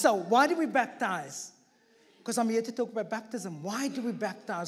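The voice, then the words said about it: Noticeable non-local accent. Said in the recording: “why is this guy talking so funny? ... Why has got such a funny accent? ... It's just the way I talk”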